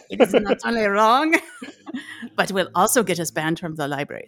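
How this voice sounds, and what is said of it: Bad put-on French accent. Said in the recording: “Boy, this is a shitty French accent”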